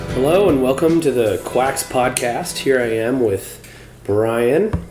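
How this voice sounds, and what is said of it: Hoarse voice, sounds unwell. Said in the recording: “I have a little bit of a cold this weekend. As you can tell, my voice is a little hoarse ... You just don't sound like you feel well”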